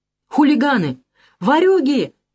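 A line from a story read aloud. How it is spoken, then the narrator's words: Woman shouting. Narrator (Russian): кричала женщина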